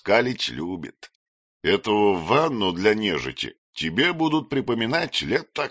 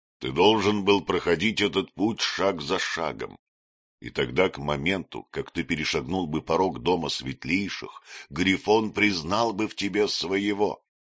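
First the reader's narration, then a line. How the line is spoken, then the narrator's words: Quiet. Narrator (Russian): сказал он негромко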